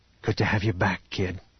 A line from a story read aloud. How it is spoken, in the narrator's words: Han whispered